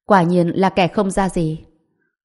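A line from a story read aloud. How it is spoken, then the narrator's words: Cold, arrogant. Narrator (Vietnamese): Lý Nguyên Phong cao ngạo, lạnh lùng nói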